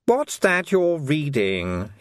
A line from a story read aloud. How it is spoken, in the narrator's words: he snapped